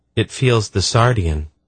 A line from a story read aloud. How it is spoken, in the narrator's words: Erion said in a calm voice